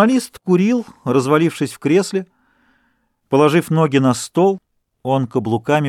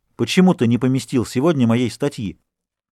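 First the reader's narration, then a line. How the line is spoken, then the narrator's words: Furious question. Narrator (Russian): Дюруа, взбешенный, спросил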